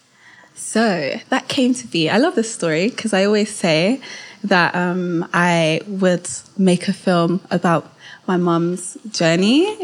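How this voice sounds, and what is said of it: London British accent. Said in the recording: “you are based in London. People will probably be able to tell the more they hear you speak because they'll be like, your accent. It's not like the others we've had on here.”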